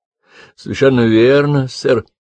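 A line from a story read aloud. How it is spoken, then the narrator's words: Mumbling. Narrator (Russian): промямлил Джеффри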